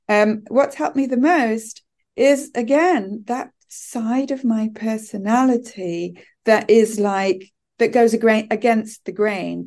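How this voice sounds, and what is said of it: British accent. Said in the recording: “I sound British, which I am”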